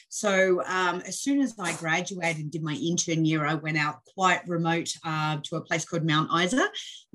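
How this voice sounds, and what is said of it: Australian accent. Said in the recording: “you may guess from my accent, I'm Australian born and trained.”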